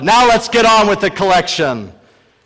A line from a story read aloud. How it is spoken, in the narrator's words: A man shouted